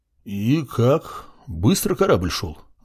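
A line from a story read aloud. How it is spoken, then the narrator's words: Thoughtful sailor's question. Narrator (Russian): задумчиво спросил до этого молчавший моряк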